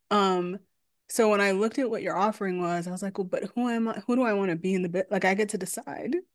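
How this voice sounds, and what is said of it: Long Island accent. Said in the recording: “I have more of a Long Island accent. And so it's coming out more now.”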